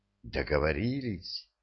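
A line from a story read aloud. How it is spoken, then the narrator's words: Heated whisper, asking again. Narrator (Russian): еще раз переспросила она жарким шепотом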